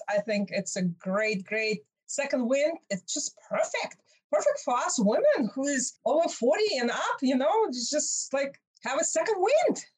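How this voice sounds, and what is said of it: Russian accent. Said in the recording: “You are from Russia. ... I guess you did notice my accent. ... wow, that's a different accent.”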